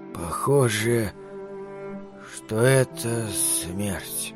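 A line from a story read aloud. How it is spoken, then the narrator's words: Weak voice. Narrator (Russian): Слабым голосом он произнес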